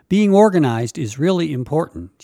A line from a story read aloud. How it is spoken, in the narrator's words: she said